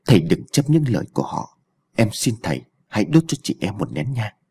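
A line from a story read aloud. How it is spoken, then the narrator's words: Soft voice. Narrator (Vietnamese): nói khẽ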